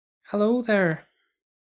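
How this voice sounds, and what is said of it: Put-on Irish accent. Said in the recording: “Is that your normal accent? ... Well, no, obviously. ... Were you going for Scottish? ... More Irish.”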